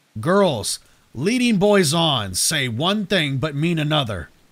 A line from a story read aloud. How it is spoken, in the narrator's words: the creature growled